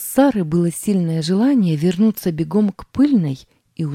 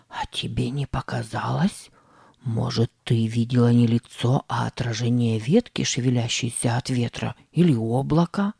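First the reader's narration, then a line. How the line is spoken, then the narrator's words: Whisper. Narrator (Russian): зашептал Сэм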